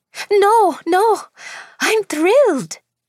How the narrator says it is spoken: she exclaimed

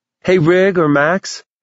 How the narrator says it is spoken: Mason yelled from the bathroom

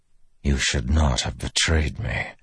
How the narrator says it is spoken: Dalinar whispered

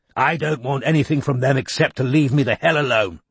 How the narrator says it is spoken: snapped Chisel

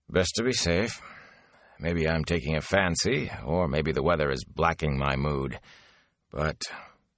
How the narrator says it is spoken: he sighed

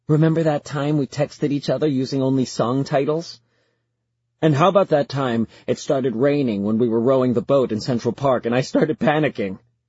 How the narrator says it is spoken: Genevieve laughs

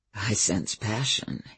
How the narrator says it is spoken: he said, his voice soft with laughter

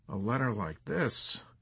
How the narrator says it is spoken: Milo mumbled despondently

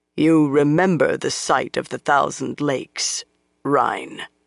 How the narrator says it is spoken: Lan said coldly

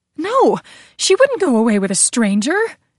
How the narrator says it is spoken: Gabriella cried

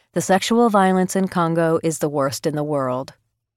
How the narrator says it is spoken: John Holmes, the UN Undersecretary General for Humanitarian Affairs, says flatly

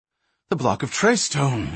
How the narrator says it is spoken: exclaimed Minion quickly

